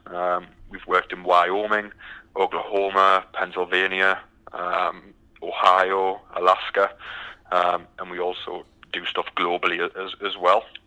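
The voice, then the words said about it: British English accent. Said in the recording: “as you can tell by the accent, I'm from the from the UK ... still haven't got the Texas accent quite yet”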